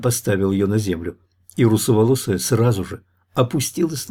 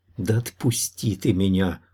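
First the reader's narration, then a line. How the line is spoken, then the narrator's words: Whisper in ear. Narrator (Russian): шепнула в ухо Лана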